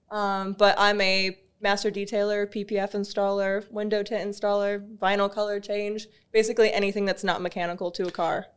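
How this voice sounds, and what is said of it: American accent. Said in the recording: “With an American accent. ... From Florida, right?”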